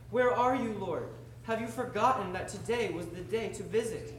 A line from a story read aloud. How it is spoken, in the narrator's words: With tears in his eyes, Peter cried out